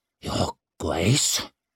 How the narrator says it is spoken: managed to hiss

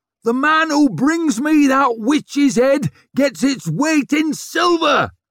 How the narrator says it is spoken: he roared

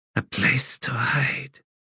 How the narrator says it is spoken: he whispered

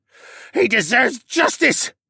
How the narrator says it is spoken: the Elvenborn screeched

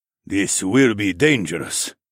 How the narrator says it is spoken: Quan said in his gravelly tone

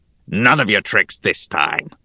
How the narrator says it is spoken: growled the goblin

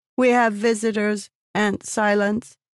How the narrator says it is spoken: Sabruki said in a cold, monotone voice

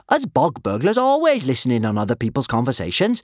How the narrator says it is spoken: she said cheerfully

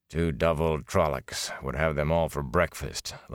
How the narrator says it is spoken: Lan muttered

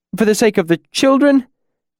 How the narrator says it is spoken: the bald man pleaded

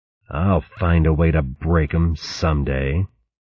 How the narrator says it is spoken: Another voice growled

